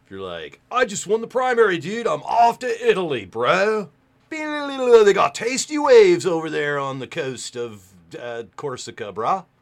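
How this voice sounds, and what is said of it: Put-on casual 'dude' accent. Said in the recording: “Sometimes I slip into my native accent, dude.”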